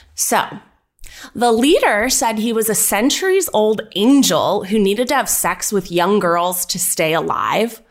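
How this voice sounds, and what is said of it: Newscaster-style presenting voice. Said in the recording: “Present this in your best ... was destined to be a newscaster voice. ... Yeah, it's very similar to my trivia voice.”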